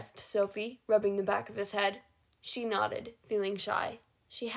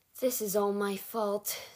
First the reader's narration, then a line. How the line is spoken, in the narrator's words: Sophie groaned